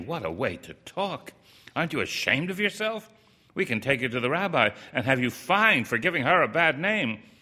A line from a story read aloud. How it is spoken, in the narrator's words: they said indignantly